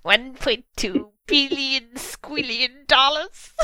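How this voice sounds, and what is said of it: Comic movie-villain impression voice. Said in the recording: “I should have done that in, like, a Dr. Evil voice.”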